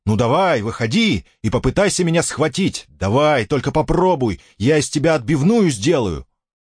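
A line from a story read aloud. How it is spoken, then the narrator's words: Yelling. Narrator (Russian): Я заорал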